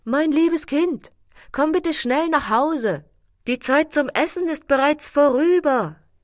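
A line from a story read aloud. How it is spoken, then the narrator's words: Loud call. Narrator (German): Sie rief laut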